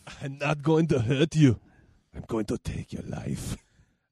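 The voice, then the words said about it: Imitates another person's thick-accented voice. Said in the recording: “their voices are so... They have such thick accents. Like, Stallone is such a thick, like... Yo, you know, whatever.”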